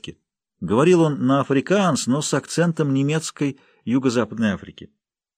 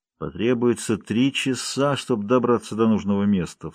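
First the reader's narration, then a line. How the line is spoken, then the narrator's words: Muttering aloud. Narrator (Russian): вслух пробормотал он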